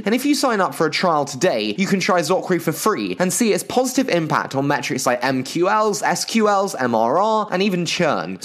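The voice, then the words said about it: English accent. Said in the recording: “you've heard quite enough of my terrible English accent”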